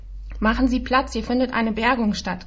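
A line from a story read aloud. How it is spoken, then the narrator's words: Called out. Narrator (German): rief mein Kompagnon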